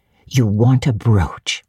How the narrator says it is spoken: said Mrs

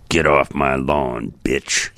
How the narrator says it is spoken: He snarls

